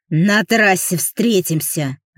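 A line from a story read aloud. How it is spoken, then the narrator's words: Angry hiss. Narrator (Russian): зло прошипел байкер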